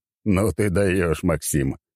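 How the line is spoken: Short laugh. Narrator (Russian): хохотнул он

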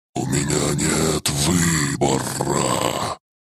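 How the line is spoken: Hiss. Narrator (Russian): прошипела мать

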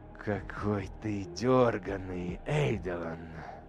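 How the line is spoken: Ingratiating soldier. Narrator (Russian): вкрадчиво заговорил легионер

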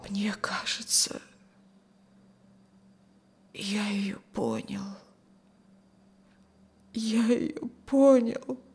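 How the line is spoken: Tearful whisper. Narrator (Russian): сквозь слезы прошептал Рюхин

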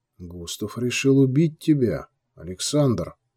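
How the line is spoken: Quiet. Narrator (Russian): Захар негромко произнес

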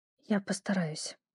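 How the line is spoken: Faint whisper. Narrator (Russian): едва слышно прошептала

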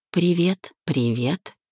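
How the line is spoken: Dry cold greeting. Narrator (Russian): сухо поздоровалась я

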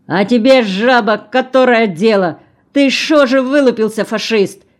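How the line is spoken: Angry shouting elder. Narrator (Russian): закричал староста

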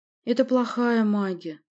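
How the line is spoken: Sad and disappointed. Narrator (Russian): сказала она грустно и разочарованно

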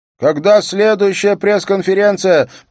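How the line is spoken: Shout. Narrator (Russian): прокричала Мона До, криминальный репортер газеты ВГ

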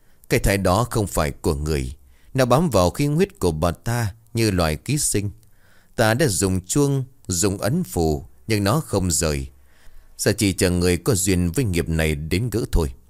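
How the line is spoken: Sighing. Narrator (Vietnamese): Thầy Ngân bấy giờ cúi đầu thở dài

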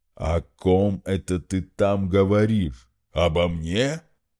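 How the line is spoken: Booming drone. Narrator (Russian): прогудел Игв

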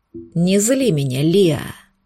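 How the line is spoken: Werewolf growl. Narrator (Russian): Прорычал оборотень

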